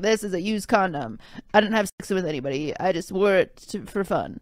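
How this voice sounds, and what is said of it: Imitates another person's voice. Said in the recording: “my Austin impression.”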